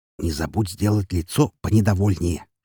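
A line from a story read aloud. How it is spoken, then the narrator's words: Covert muffled whisper. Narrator (Russian): шепнул Роман отцу, прикрыв губы бокалом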